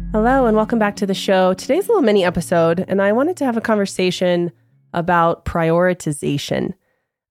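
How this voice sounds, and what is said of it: Voice sounds unwell, still recovering. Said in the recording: “You might hear in my voice that I am still recovering from what has been a very rough go with the flu”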